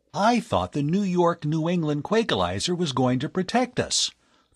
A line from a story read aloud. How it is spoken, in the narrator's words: the young inventor exclaimed